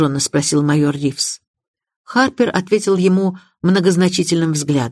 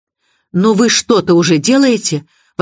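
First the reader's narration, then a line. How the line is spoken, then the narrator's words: Exclaiming. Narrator (Russian): воскликнула миссис Ривз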